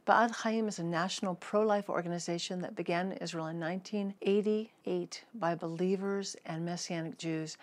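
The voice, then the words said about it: American accent. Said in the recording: “many hear my American accent”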